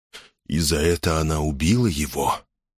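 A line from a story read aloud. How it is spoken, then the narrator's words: Quiet question, as if to himself. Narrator (Russian): Тихо, тоже как бы про себя, спросил Лронг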